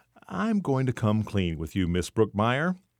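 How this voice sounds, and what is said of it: Conspiratorial, hushed voice. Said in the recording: “in his most conspiratorial voice.”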